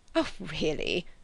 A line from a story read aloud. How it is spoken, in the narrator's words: he murmured gallantly